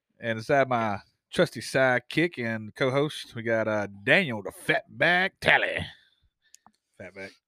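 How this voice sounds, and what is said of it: Weird carnival barker-style voice. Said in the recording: “That was a weird voice ... It's kind of sound like the guy at the fair”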